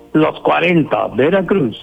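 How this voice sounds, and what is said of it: Radio announcer voice. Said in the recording (Spanish): “hasta la voz de locutor y todo”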